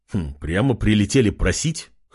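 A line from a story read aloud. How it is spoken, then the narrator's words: Snort. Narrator (Russian): хмыкнул Артем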